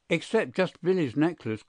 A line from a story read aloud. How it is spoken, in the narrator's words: cried Hilda